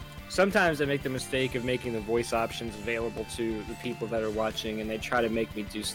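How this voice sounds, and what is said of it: Usual voice. Nothing is said of it.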